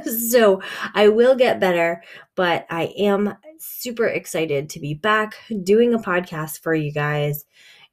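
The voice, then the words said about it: Voice slightly rough from a cold. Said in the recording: “as you can hear in my voice, I'm starting to get a little cold”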